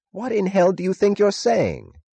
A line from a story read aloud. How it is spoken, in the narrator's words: Taggart cried furiously